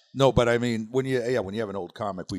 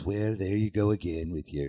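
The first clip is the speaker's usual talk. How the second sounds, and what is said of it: Imitates another person's voice. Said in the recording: “we do old impressions ... Now I'm doing a Reagan impression.”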